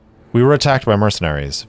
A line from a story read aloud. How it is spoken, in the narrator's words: Vanguard replied